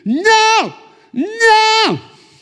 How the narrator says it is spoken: girl, beautiful girl, screaming after him

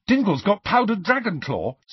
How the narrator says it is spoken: said Ron eagerly

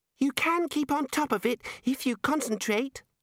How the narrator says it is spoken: the Arch-Chancellor squeaked

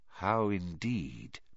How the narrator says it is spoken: muttered Dumbledore

